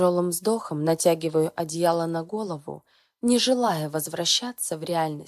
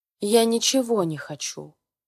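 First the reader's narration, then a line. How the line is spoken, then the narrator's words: Displeased muttering. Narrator (Russian): Недовольным голосом бубню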